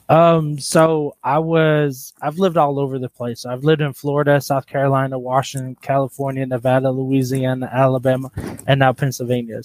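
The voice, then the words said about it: Mixed Alabama and West Coast accent. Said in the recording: “You don't sound like you're from Alabama... it has a combination of an Alabama accent plus a West Coast”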